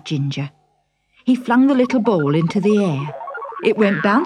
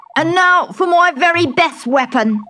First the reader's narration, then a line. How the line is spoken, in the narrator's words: he shouted